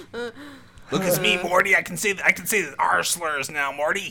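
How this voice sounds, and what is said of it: Good, crazy Rick Sanchez impression. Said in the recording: “It's actually not bad. You actually do a really good Rick, dude. ... You actually do like a crazy Rick.”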